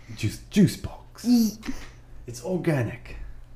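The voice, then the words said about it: Put-on British accent. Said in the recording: “Why am I talking British? I'm not British.”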